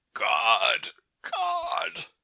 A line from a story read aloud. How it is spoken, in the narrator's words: he groaned, the infinite despair with which his throat vibrated